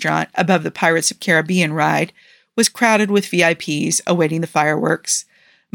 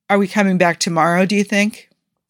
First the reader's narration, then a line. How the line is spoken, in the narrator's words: Steve asked